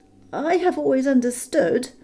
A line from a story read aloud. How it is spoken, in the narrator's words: said Bilbo in a frightened squeak